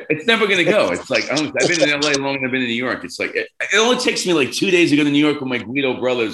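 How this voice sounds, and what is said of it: Bronx New York accent. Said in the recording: “that fucking Bronx accent”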